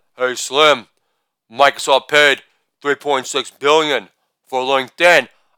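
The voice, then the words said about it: Imitates another person's voice. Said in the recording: “This is an impersonation of merger talk between Dr. Dre and Eminem.”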